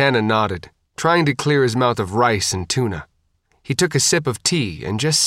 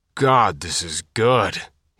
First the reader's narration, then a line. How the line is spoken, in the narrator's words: muttered